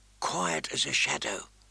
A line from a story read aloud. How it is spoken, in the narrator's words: she whispered